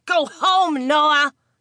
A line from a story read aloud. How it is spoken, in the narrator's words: Simon barked at him